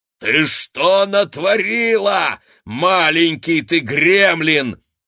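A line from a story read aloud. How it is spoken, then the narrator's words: Barking giantess. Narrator (Russian): гаркнула великанша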